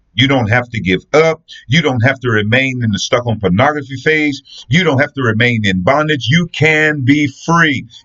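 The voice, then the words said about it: Passionate, intense preaching voice. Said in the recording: “hear the passion in my voice”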